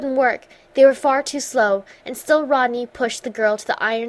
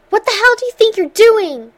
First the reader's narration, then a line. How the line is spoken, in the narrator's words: before he found the air to yell